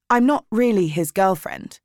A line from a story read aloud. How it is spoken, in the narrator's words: I said quickly